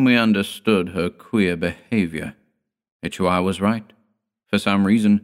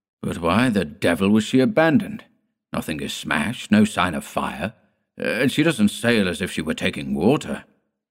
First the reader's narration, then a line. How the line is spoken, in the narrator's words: Ichiwar exclaimed impatiently